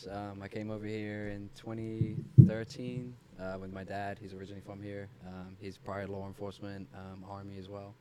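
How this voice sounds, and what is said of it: English accent. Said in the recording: “I'm from England originally. ... Say it in the accent.”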